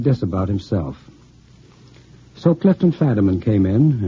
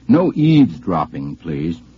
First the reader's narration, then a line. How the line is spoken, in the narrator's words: I said very sternly